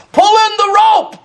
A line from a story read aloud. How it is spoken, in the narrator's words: shouted over the raging waters